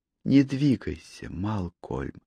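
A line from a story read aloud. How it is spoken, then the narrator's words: Tender whisper. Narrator (Russian): с нежностью прошептала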